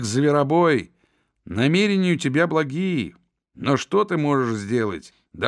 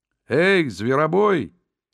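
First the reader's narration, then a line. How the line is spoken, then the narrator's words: Booming voice, cheer gone. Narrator (Russian): подхватил непоседа громовым голосом, потерявшим, впрочем, обычную веселость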